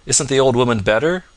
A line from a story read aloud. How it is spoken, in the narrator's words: cried